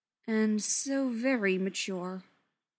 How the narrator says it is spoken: Yanto drawled

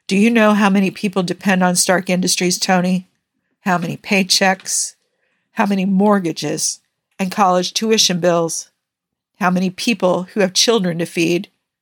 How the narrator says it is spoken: He sighed

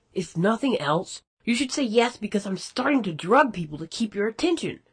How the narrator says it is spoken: Rodney had yelled

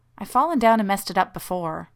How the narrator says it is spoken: protested Shepard warmly

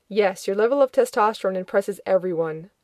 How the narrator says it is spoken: Rodney snapped

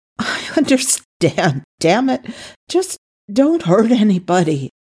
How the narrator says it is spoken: he burst out shakily

